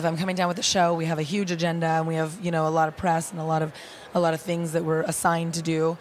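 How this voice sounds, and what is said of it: Husky, raspy voice. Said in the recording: “why my voice is a little more Demi Moore than it normally is”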